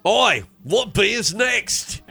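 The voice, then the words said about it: Put-on New Zealand or Australian accent. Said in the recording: “Is that a New Zealand accent or Australian? ... There's a very fine line between those two. I don't know which one I did.”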